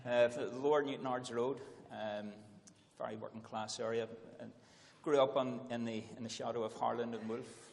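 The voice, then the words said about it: Northern Irish accent. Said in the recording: “from your accent, you weren't brought up in England. You were brought up in Northern Ireland.”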